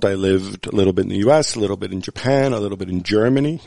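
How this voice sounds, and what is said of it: American accent. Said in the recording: “I always attended American schools, and then I went to university in America and graduate school in America, hence my accent”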